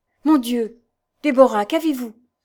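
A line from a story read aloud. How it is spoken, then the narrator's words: Terrified cry. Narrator (French): s'écria la fille du diable épouvantée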